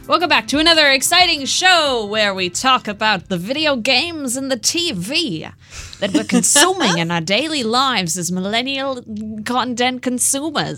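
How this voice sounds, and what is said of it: Drifting old-time newscaster accent. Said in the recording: “This accent is very drifting. ... It's like a 1940s newscast. ... It sounds like News of the World. ... One line was that, and the other line was totally different.”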